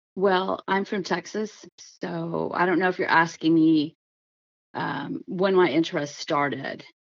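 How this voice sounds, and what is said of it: Slightly raspy voice. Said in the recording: “a little bit of a raspy voice”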